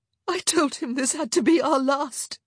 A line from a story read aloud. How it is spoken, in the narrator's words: she gasped, sobbing onto his shoulder